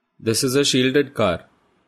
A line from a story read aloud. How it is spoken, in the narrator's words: Thakur says